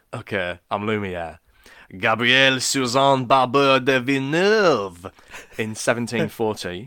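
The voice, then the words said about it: Put-on French accent. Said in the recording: “I can only do the French accent if I'm Lumiere.”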